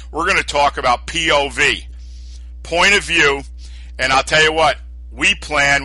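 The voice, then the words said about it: New York accent. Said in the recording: “your dreamy New York accent.”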